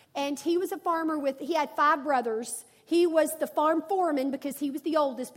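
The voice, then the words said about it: Arkansas accent. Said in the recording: “I'm from Arkansas, if you're new here and don't know the accent.”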